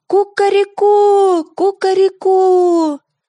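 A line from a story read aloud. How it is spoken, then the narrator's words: Rooster's cry. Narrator (Russian): петух крикнул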